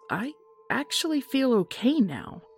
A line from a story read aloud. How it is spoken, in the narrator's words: I said hesitantly